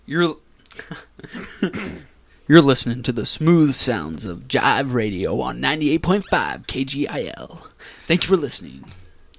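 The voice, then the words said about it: Radio announcer voice. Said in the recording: “your best radio impression”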